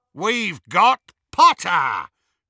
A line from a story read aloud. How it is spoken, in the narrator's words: Greyback roared triumphantly